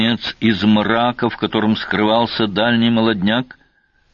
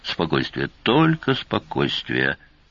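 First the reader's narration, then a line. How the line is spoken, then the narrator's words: Through gritted teeth. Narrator (Russian): процедил капитан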